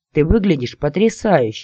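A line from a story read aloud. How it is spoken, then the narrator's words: Joyful. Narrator (Russian): радостно сообщили мне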